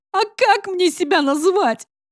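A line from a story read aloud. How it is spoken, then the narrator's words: Desperate ashamed cry. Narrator (Russian): В отчаянии выкрикнула, испытывая жгучий стыд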